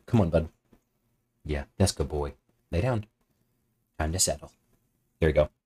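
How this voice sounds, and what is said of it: Doting dog-owner voice. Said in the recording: “my little my dog dad voice”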